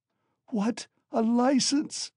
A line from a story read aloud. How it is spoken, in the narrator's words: wailed Katerina Ivanovna